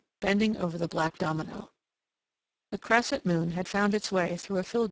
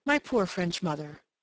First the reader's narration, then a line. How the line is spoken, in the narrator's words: whimsically the girl sighed